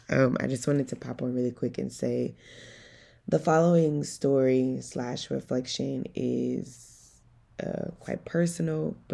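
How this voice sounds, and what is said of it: Groggy voice. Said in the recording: “my voice is a little groggy. I literally just woke up.”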